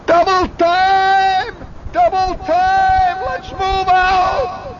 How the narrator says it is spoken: The lieutenant suddenly hollers

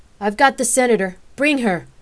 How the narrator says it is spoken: the agent shouted

